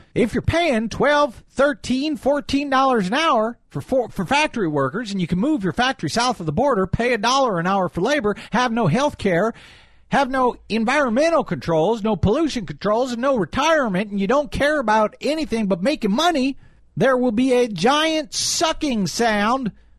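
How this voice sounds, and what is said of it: Higher, pinched imitation of another person. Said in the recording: “Pretty good impression of him, though. A little higher, a little more pinched.”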